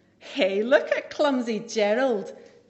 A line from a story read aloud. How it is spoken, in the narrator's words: the animals all laughed